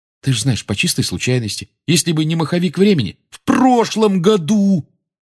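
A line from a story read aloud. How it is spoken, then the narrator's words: Nearly shouting. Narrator (Russian): Рон почти кричал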